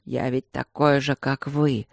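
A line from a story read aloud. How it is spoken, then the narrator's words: Wheezed. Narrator (Russian): Просипел Люк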